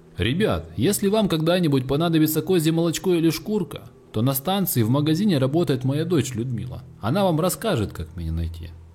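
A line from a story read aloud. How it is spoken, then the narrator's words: Shouted. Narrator (Russian): крикнул он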